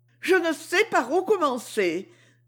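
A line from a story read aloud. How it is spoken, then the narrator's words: Desperate exclamation. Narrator (French): s'écria-t-elle d'un ton désespéré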